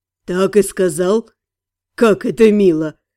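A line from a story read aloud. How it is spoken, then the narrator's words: Snorting. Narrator (Russian): Фыркнул Фарен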